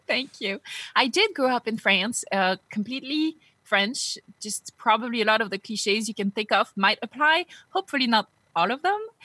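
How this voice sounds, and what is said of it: French accent in English. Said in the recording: “You can probably hear it. I still have that French accent I can't get rid of despite trying for almost three decades now.”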